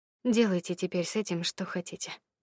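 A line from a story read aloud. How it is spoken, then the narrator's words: Tired. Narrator (Russian): устало сказала я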